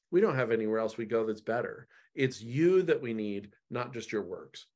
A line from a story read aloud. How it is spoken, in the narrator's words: says Peter